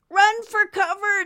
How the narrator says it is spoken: Nimbus shouted at the crowd

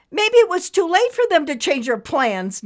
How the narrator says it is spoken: Nimbus said angrily

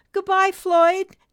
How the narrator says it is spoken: Nimbus cried

